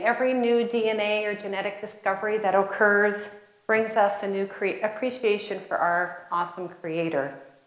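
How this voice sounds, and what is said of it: Slight Canadian accent. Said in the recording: “I'm told I still have a little bit of an accent ... I am a Canadian”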